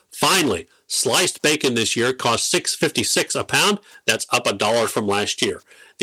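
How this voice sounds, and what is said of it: Polished radio announcer voice. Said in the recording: “that radio voice”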